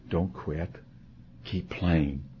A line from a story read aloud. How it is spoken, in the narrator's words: the voice of the Master whispering in your ear